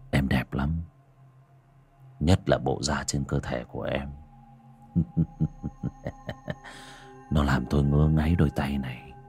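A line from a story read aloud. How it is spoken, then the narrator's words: Leering whisper in ear. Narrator (Vietnamese): Hắn miệng nhợn nở một nụ cười đều cáng, ghé vào tai cô mà thì thầm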